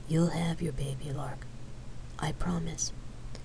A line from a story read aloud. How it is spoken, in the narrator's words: whispering